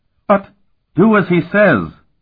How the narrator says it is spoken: Barrett roared

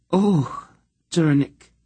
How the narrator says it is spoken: she said with a great sigh

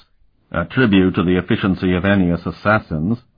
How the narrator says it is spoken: the Thalesian Comier said dryly

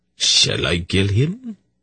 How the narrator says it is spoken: Isis asked calmly

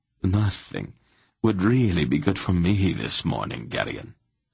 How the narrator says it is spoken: Silk replied sadly

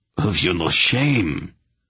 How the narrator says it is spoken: His voice was choked

